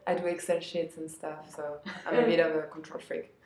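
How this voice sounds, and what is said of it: French accent. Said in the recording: “I think they like my French accent.”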